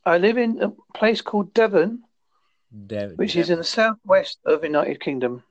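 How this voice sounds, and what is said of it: Essex accent with Devon traces. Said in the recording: “I lived in Essex for 30 plus years... So I had that accent... So I picked up a bit of Devonish as well, but my main strongest accent is Essex.”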